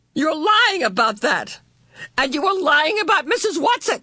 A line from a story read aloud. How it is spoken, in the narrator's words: screamed